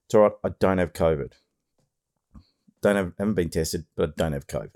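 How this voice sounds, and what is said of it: Deeper, strained, losing voice. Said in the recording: “my voice is a bit funny today. It's a bit deeper. Anyway, I think I'm losing my voice.”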